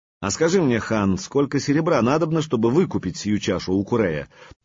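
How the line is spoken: Plain. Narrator (Russian): спросил воевода Серегей

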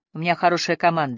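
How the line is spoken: Dry. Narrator (Russian): сухо произнес Линли

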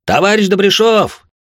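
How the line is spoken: Yelling. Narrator (Russian): орал он

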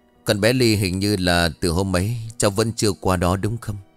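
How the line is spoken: Sighing. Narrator (Vietnamese): Ông Tuấn thở dài nói

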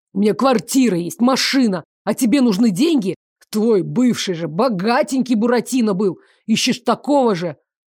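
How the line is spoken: Nearly shouting. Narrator (Russian): Он уже практически кричал

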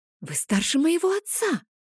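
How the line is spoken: Whisper. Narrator (Russian): прошептала я

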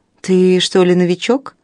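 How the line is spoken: Mocking question. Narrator (Russian): насмешливо поинтересовалась Клара

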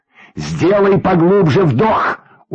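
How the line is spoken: Shout over rushing water. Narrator (Russian): успел крикнуть Юрьев Максиму, когда вода с шумом ворвалась в салон

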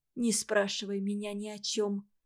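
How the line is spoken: Quiet. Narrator (Russian): тихо сказала

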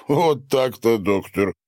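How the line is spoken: Deep guttural chuckle. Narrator (Russian): утробно хохотнул Сидор

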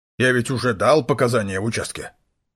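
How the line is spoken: Grumbling. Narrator (Russian): проворчал

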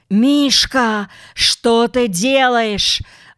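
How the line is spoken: Terrified shout. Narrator (Russian): в ужасе крикнул Пака

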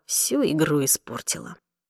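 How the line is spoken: Muttered. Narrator (Russian): пробормотал

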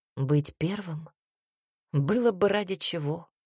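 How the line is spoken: Changed, hoarse voice. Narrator (Russian): произнес изменившимся голосом, в котором прозвучали хриплые ноты

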